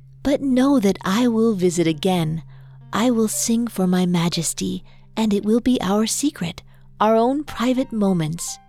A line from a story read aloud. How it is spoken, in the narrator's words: she said